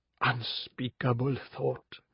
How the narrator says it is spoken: whispered Arjun

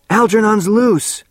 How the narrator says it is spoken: Bert shouted

